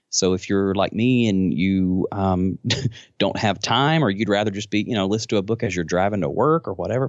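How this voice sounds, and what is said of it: Southern US accent. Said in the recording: “this Southern accent”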